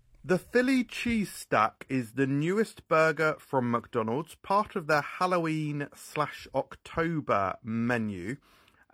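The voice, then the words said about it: Speaks with a noticeable accent. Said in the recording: “I love that accent.”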